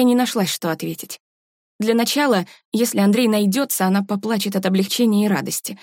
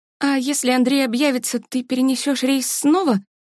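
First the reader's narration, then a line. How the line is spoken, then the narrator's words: Sighing sister asking. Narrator (Russian): Вздохнув, поинтересовалась сестра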